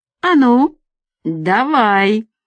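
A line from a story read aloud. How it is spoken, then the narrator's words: Through gritted teeth. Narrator (Russian): процедил Мустафа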